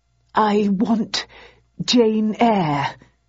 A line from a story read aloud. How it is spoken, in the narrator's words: he stammered